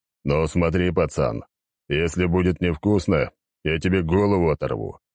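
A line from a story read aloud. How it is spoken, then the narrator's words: Deep bass voice. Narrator (Russian): пробасил Валера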